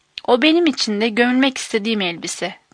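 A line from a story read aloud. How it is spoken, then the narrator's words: Plain. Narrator (Turkish): dedi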